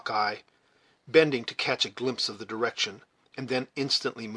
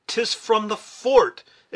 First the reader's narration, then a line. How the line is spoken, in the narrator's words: exclaimed Hawkeye